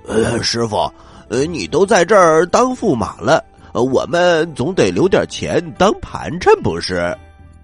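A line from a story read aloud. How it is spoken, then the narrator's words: Laughing. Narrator (Chinese): 八戒笑着说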